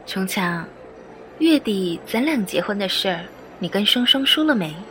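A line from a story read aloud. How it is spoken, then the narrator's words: Smiling sweetly. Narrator (Chinese): 富丽抿嘴一笑，笑盈盈的说道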